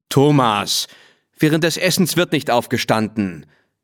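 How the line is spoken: Annoyed father's call. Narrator (German): rief sein Vater genervt

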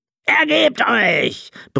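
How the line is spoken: Captain bellowing. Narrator (German): brüllte der Kapitän Seekrank

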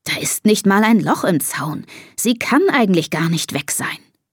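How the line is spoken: Father murmuring. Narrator (German): murmelt Papa

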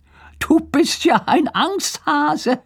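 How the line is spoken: Laughing. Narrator (German): sagt Lars und lacht

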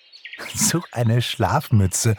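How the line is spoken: Giggling. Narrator (German): kicherte Pixie

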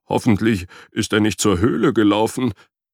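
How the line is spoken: Whining. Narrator (German): jammerte Frederik

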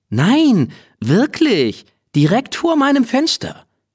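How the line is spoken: Agitated insistence. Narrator (German): Er war ganz aufgeregt, weil sie ihm nicht glaubten

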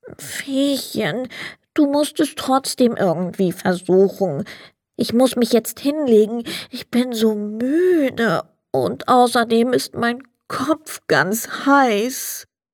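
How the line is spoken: Sad. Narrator (German): Der Sandmann sagte traurig

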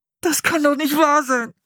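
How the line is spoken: Groaning. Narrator (German): stöhnte er

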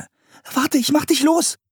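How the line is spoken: Calling out. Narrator (German): rief Anne

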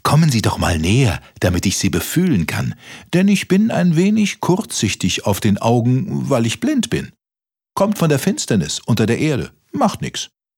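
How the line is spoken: Mole calling out. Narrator (German): rief der Maulwurf

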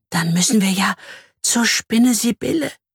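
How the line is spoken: Frightened woman whispering. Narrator (German): flüstert sie ängstlich

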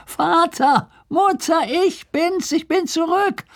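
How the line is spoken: Calling from afar. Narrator (German): rief er von Weitem

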